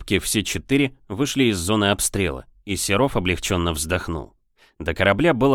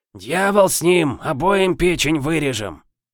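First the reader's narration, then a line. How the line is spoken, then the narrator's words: Hoarse remark. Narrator (Russian): заметил хрипатый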